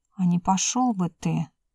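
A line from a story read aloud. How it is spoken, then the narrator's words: Quiet nervous grumble. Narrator (Russian): Танька тихо бурчала, лихорадочно соображая, как бы удрать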